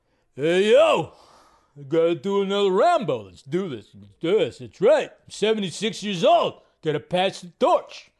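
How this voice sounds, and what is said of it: Sylvester Stallone impression. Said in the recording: “Sylvester Stallone, if you didn't gather what I was doing an impression of”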